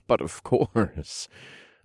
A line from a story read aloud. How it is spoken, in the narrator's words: chuckled